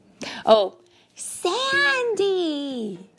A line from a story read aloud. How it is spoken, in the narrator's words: Everybody yelled